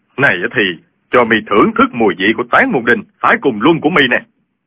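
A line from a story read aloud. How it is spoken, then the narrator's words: Furious shout. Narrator (Vietnamese): Y cả giận quát lên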